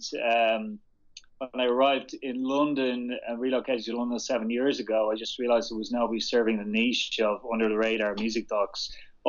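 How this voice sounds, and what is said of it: Irish Dublin accent. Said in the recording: “I'm from Dublin, as you probably recognize my accent.”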